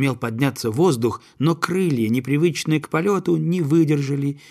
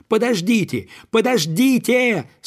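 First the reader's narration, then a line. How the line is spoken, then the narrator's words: Young gander's urgent cry. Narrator (Russian): снова закричал молодой гусак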